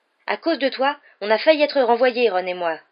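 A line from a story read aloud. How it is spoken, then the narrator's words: Fierce tone. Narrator (French): dit-il d'un ton féroce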